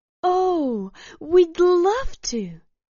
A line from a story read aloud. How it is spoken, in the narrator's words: said, the sparkles in her eyes dancing excitedly